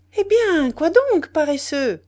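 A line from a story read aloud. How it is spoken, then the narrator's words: Cheerful shout. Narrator (French): cria gaiement M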